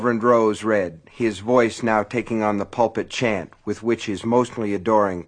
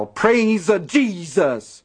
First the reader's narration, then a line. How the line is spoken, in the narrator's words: felt a brief urge to yell